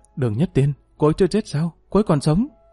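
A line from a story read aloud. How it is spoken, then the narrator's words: Excited, trembling voice. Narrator (Vietnamese): Dương Lăng thoáng sững người, rồi cũng thoát trở nên phấn chấn, giọng run rẩy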